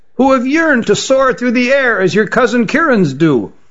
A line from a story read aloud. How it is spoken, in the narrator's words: said Issar to his compatriot in a shrill voice